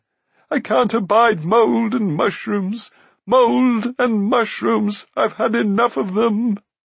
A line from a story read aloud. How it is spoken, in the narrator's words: He set to weeping again, and his pitiful moans shook the cavern